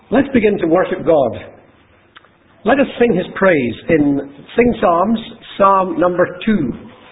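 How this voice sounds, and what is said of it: Mixed Scottish accent. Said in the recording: “my Scottish accent, funny Scottish accent, because I don't have one authentic Scottish accent, that's a kind of hybrid of various different places where I used to live”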